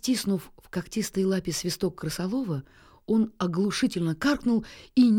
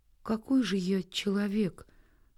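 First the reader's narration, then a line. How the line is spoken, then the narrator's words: Sad. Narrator (Russian): грустно заметил Нильс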